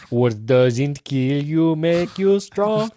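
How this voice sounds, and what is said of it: Attempted Russian accent. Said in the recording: “Was that your best Russian accent? ... Yeah, I was trying.”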